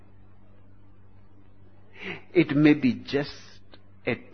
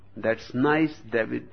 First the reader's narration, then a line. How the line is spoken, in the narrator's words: said